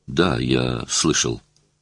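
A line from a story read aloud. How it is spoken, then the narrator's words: Embarrassed mumble. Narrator (Russian): Я пробормотал в замешательстве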